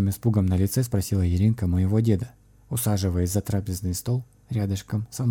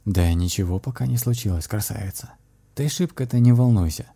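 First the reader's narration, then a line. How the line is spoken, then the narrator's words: Calm voice of a grandfather. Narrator (Russian): спокойным голосом произнес мой дед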